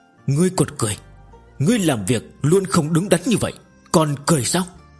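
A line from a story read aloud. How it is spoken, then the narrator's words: Exasperated stammering. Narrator (Vietnamese): Sơ Tổ Nhân Hoàng cũng không nhịn được, lắp bắp nói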